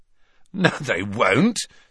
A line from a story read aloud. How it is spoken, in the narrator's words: said Ron, who, like Harry, was laughing